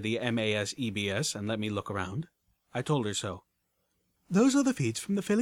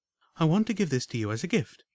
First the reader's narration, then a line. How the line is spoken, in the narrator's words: Homage said with a soft smile and a warm but insistent voice